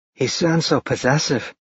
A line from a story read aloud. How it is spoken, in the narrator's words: Josie whispered to Brittany